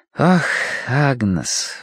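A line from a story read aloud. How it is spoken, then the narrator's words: Sigh. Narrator (Russian): вздохнула Киврин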